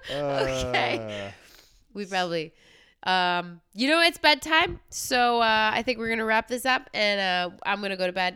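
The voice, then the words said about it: Completely congested voice. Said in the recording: “You can tell in my voice I like went from like speaking a little bit clearly, now I'm like completely congested”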